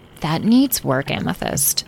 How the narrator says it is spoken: Citrine murmured

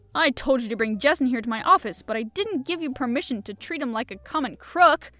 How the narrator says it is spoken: roared the chief angrily at his men

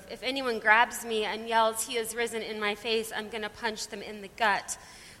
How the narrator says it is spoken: mumbled

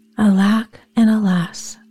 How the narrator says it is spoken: cried the poor peasant man

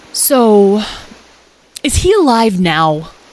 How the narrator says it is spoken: Lyle asked anxiously

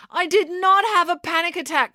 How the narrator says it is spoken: cried April

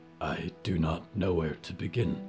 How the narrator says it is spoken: Yuretsi breathed

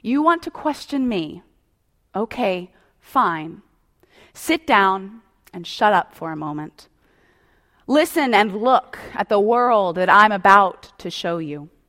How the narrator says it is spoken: they say firmly

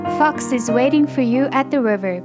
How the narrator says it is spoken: Bear said

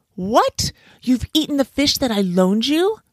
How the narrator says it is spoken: shouted the monkey, in anger

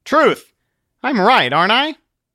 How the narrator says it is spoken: Christian cocked his head back and yelled

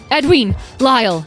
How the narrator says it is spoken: yelled Beatrice

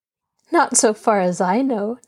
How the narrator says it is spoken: Nancy laughed

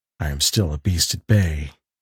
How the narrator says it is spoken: he said in a low, hoarse voice

